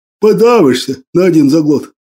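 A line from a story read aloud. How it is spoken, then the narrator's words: Laughing. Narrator (Russian): Засмеялся Крапчина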